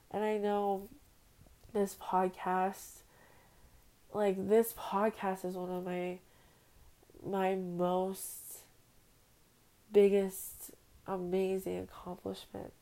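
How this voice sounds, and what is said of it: Emotional, choked-up voice. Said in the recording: “I'm gonna get emotional”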